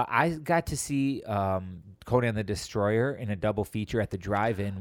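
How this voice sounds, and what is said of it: Usual voice. Nothing is said of it.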